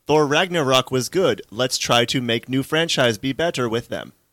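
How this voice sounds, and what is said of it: Robot voice. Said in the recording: “With that exact robot voice.”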